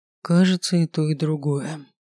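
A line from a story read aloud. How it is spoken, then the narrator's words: Sighed. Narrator (Russian): вздохнул некромант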